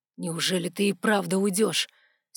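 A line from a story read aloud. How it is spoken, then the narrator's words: Strained, disbelieving ambassador. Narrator (Russian): Все еще не веря, что это происходит, выдавил посол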